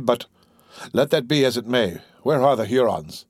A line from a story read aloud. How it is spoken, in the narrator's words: returned a little dryly